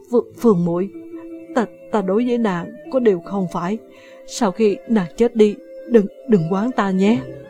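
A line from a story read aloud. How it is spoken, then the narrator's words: Trembling voice. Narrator (Vietnamese): Vạn Khuê cất tiếng run run nói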